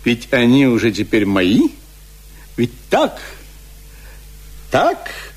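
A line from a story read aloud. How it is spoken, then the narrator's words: Angry questioning. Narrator (Russian): злобно спрашивала она меня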